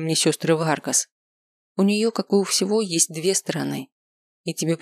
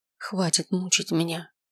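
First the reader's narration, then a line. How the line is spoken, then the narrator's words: Whispered. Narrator (Russian): прошептал я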